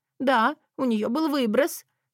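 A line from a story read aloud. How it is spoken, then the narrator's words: Sobbing voice. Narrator (Russian): послышался второй, всхлипывающий голос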